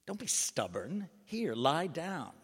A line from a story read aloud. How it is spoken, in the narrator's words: crossly said